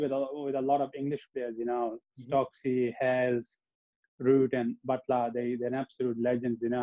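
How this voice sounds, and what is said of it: Usual voice. Nothing is said of it.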